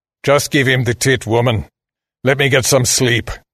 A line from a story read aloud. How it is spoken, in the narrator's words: the man growled